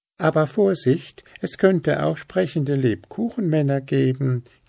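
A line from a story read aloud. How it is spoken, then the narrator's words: Giggled. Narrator (German): kicherte Hüpf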